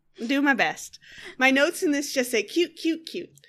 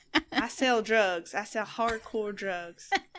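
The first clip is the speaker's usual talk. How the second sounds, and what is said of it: Attempted Texas accent. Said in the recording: “she has a Texas straw. ... is that your Texas accent? ... I'm doing my best, man. I grew up in the Northeast.”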